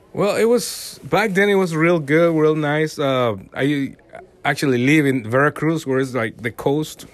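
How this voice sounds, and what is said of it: Mexican Spanish accent in English. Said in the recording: “most listeners can probably tell by your accent that uh, you're from Latin America, you are from Mexico”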